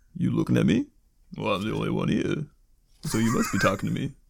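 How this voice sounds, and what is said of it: Slow, low-pitched imitation of another person. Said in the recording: “your proficiency with Stallone ... It's not just a yelling impersonation anymore ... You gotta be able to go down real low ... my slow and low Stallone”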